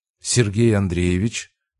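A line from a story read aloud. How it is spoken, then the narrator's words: Soft, neutral. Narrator (Russian): произнес он мягко, без улыбки, но и без холодности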